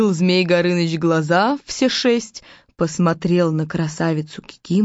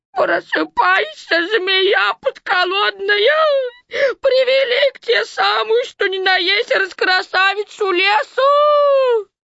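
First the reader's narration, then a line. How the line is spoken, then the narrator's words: Shouting through tears. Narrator (Russian): Баба-Яга и орет сквозь слезы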